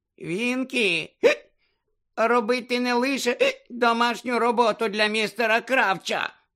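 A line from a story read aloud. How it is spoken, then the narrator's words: Indignant squeak. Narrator (Ukrainian): обурено запищала Вінкі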